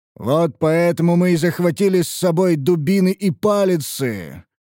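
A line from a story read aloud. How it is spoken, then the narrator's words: Growled. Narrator (Russian): прорычал Гробак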